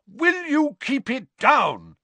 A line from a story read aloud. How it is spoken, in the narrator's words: he bellowed